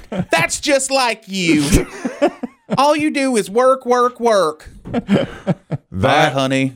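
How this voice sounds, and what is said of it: Imitates a woman's voice. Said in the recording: “as good an impression as Chris Dimm's Don Henley ... Exactly what that woman does.”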